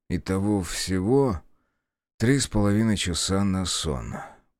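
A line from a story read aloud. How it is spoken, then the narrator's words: Mumble. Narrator (Russian): пробормотал я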